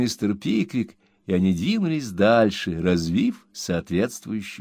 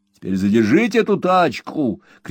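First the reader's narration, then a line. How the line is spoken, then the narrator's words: Shouted. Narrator (Russian): крикнул Уордль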